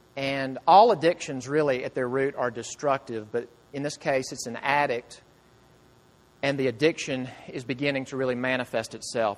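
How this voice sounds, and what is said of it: Southern American accent. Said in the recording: “My southern accent says intervention”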